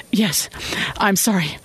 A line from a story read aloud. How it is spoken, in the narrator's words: she said unsteadily